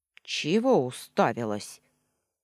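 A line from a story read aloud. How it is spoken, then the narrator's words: Grumbling earthy creature. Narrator (Russian): проворчало нечто, похожее на уродливый комок земли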